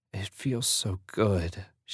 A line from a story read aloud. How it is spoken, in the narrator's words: she moaned